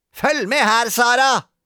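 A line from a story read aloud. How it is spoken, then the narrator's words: Screamed. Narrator (Norwegian): skrek Gretne Grete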